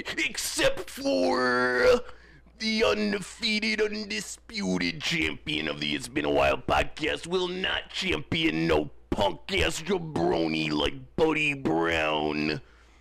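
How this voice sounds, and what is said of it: Macho Man Randy Savage impression. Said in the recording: “doing the Macho Man voice a lot around the house lately ... Bring it back.”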